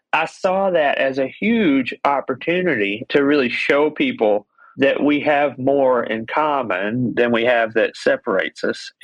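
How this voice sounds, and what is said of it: Southern US accent. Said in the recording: “my accent... they would hear my accent... People with that accent... I'm grateful that I'm from the South”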